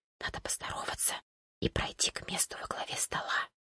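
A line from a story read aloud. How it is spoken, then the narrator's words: Quick whisper. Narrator (Russian): Вероника быстро зашептала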